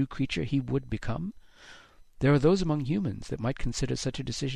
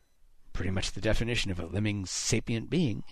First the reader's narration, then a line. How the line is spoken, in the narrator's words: Haddix muttered